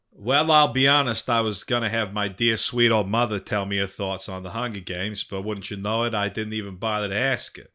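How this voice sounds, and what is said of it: Put-on Boston accent. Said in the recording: “I'll transition into my Boston accent”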